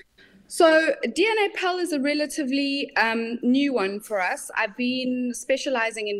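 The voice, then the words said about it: South African accent. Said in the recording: “from your accent, I can tell you you're not from the UK ... I'm a Saffa, and I'm sitting here in sunny South Africa”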